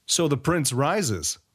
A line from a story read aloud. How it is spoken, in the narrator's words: mocked one